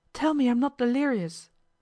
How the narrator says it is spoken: he exclaimed

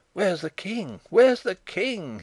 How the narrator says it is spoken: he cried

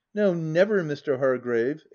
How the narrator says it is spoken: exclaimed I

